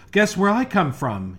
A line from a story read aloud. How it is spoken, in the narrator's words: he cried